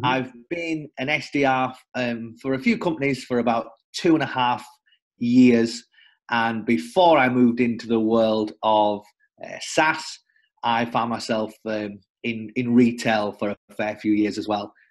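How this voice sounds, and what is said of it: Northern English accent. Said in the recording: “As you'll hear from my accent, originally from the north of England”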